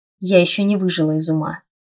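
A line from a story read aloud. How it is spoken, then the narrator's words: Grumbled. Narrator (Russian): проворчала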